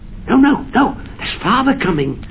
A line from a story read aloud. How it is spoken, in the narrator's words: cried the two young Cratchits, who were everywhere at once